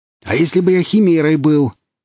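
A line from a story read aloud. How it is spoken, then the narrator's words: Distant shout from darkness. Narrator (Russian): крикнул он им из темноты, отбежав на приличное расстояние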